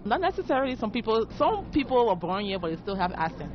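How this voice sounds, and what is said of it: Liberian English accent. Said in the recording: “you have an accent ... I'm from Liberia.”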